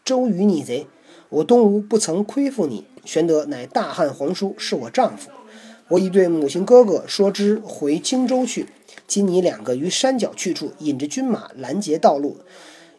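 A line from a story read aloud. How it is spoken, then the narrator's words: Furious. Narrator (Chinese): 孙夫人大怒曰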